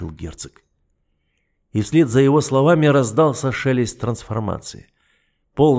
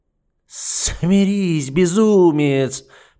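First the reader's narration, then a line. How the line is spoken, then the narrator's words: Hissed. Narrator (Russian): прошипел герцог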